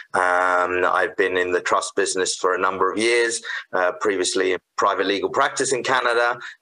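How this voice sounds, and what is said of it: British accent. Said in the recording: “I was originally from the UK, so you probably tell from my accent ... I didn't think that was a Saskatoon accent”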